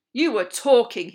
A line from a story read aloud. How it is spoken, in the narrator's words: he barked